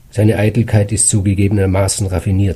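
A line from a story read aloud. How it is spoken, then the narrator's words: Plain. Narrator (German): sagte mein Vater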